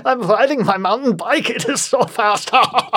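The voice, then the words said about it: Crude put-on German accent. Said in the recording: “a crude German accent you can do... of how they kind of talk over there”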